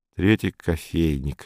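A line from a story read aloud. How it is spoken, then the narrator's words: Displeased mutter. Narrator (Russian): недовольно бормотал Саул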